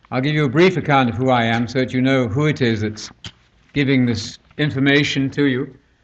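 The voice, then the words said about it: British accent, slightly Americanized. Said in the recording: “you'll hear from my accent that I'm not from Georgia ... I have modified my accent somewhat ... to myself, I sound, I suppose, reasonably British”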